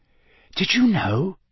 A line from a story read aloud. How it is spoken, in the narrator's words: whispered